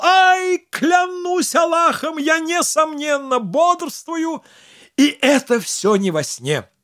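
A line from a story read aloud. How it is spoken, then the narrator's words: Howling cry of pain. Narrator (Russian): укусила его изо всех сил, и Абуль-Хасан взвыл и крикнул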